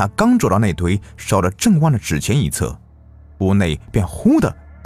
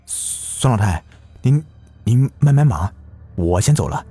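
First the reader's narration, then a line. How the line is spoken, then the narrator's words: Trembling voice. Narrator (Chinese): 声音颤抖着说道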